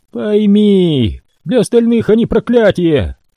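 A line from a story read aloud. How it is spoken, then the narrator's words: Woman shouting. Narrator (Russian): крикнула женщина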